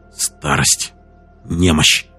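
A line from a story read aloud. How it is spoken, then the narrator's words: Mutter. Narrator (Russian): пробормотал он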